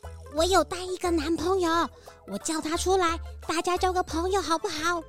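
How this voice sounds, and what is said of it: Speaking softly, quietly. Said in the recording (Chinese): “这妹妹突然小声地说”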